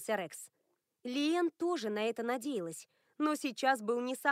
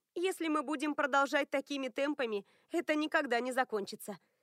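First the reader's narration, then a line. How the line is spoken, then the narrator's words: Laughing. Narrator (Russian): засмеялась Лиэн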